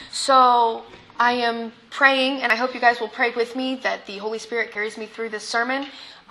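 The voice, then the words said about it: Strained, partly lost voice. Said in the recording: “Thursday, I lost my voice by doing nothing ... Hopefully you guys will be able to understand me. I'm definitely sounding a lot better”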